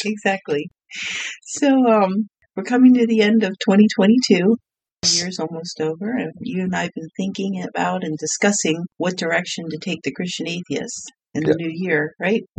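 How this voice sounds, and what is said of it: Slightly strange, sick-sounding voice. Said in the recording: “I have a cold. I have your cold... My voice is going to sound a little strange.”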